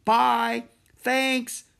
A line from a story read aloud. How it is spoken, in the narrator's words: shouted Annie